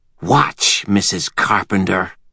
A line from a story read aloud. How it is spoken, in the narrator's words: Tessa hissed